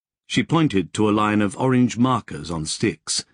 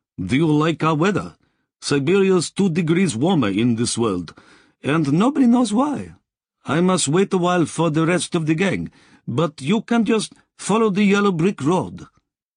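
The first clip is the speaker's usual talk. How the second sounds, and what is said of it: Rich Russian accent. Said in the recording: “Her accent was richly Russian.”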